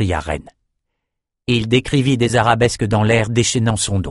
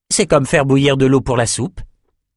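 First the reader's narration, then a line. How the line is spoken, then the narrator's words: Plain. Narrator (French): dit Oliver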